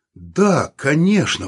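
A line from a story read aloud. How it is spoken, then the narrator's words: Exclaimed. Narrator (Russian): воскликнул он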